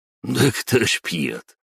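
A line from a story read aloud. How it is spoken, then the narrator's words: Snorting scoff. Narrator (Russian): хмыкнул бывший физрук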